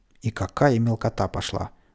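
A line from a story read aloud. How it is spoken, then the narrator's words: Gruff mutter. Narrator (Russian): буркнул милиционер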